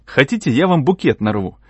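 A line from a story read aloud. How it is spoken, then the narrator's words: Joyful voice. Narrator (Russian): сказал я таким радостным голосом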